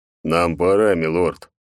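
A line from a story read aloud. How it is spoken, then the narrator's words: Cold. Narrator (Russian): холодно произнес хранитель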